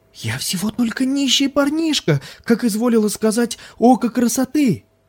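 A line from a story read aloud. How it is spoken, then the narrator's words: Yell of mock terror. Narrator (Russian): завопил он в притворном ужасе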